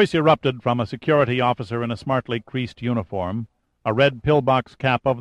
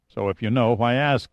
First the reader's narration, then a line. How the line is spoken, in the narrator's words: said Pitt